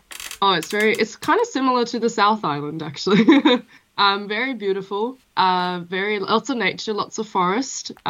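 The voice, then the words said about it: Mixed Norwegian and Australian accent. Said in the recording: “mainly Norway, and I also grew up a bit in Melbourne, in Australia. So my accent's a bit funny”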